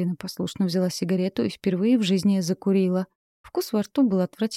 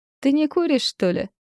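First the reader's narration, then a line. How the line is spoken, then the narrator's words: Woman laughing. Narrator (Russian): рассмеялась женщина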